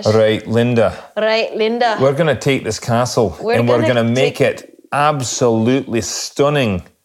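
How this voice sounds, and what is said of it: Put-on Scottish accent, somewhat Irish. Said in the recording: “I'll do my Scottish ... That was a little more Irish than Scottish, but it wasn't bad. It was pretty good.”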